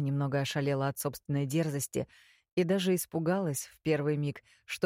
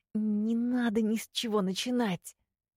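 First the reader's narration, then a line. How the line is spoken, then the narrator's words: Hissing. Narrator (Russian): зашипела я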